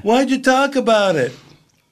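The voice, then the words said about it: Imitates another person's voice. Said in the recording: “That was a good impression.”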